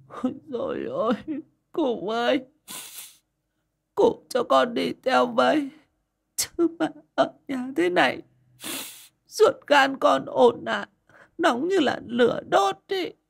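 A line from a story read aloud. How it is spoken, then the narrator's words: Sobbing. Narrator (Vietnamese): Mụ nức nở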